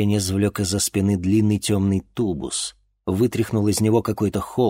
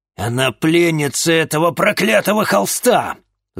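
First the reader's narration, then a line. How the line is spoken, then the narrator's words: Angry bark. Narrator (Russian): злобно рявкнул Арбогаст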